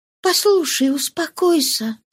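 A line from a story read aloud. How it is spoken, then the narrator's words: Soft, gentle female voice. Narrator (Russian): сказала молодая женщина мягким голосом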